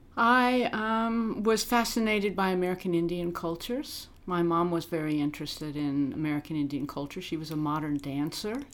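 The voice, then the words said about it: American accent. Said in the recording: “you she, do have an American accent there”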